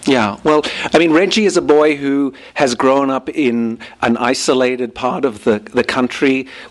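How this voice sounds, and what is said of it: Australian accent with rounded vowels. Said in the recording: “you can hear my accent now compared with reading some of the other characters ... a little bit of a socioeconomic thing in Australia ... the way I speak with a more rounded vowels”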